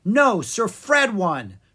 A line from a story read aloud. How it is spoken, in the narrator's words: cried Clara